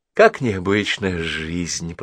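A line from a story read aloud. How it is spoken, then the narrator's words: Thoughtful. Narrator (Russian): продолжала задумчиво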